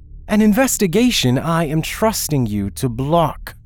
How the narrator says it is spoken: Christian snapped

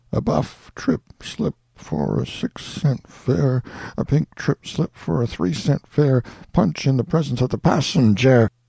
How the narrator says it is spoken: I sighed wearily and murmured

